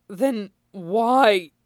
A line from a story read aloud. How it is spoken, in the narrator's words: his voice breaks